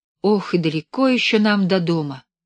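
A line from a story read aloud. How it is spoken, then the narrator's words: Heavy sigh. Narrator (Russian): тяжело вздохнула Белка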